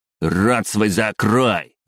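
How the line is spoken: Barked retort. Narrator (Russian): рявкнул в ответ

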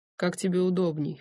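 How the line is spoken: Snort. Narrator (Russian): хмыкнул он

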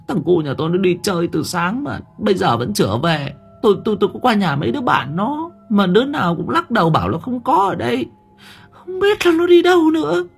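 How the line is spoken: Whimpering woman. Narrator (Vietnamese): Bà này mếu máo

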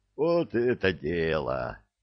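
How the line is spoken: Joyful group clamor. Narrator (Russian): радостно загомонила группа захвата

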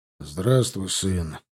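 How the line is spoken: Tired. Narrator (Russian): сказал он устало

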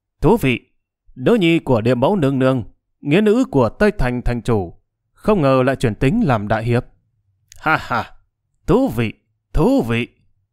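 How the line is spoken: Sudden loud laughter. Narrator (Vietnamese): Âm cửu trùng đột nhiên vỗ tay cười lớn

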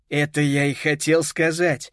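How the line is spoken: Laughing. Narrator (Russian): засмеялся дядя Титус

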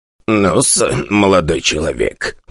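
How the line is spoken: Old man's voice. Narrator (Russian): проговорил он типичным старческим голосом

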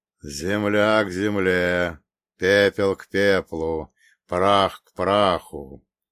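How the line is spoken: Deep bass voice. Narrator (Russian): пробасил напоследок отец Евлампий

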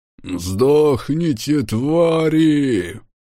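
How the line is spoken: Man roaring. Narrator (Russian): Взревел какой-то мужик

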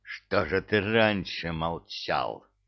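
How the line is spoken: Growling. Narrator (Russian): рычал бывалый

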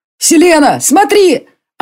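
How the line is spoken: Shout. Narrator (Russian): кто это кричал

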